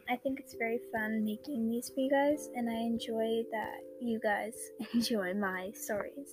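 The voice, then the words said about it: Tired voice, less soft than usual. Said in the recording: “sorry about my voice if it's not as, like, soft and comforting like it usually is ... I was up, like, all night last night”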